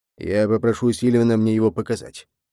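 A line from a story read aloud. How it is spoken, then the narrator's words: Grumbling. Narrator (Russian): проворчал Ханута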